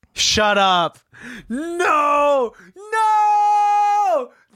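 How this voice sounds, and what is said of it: Screaming. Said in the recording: “I'm sorry I'm screaming”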